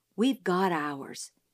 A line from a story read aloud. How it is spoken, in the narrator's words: he whispered